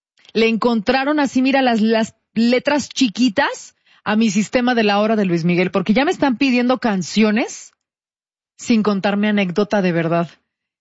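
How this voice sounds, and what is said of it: Monterrey (regio) Mexican Spanish accent. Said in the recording (Spanish): “así hablo con mi acento regio ... Hablas como que estás regañando gente. Es que así hablamos”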